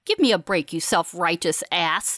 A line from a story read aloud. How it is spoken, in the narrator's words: Fallon snaps, matching Graham in both intensity and tone